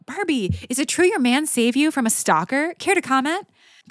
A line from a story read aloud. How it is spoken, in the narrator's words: Her reporters clamored for an interview, with one shouting out